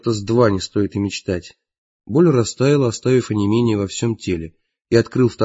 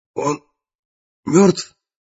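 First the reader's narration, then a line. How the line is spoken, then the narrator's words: Hoarse rasp. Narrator (Russian): прохрипел я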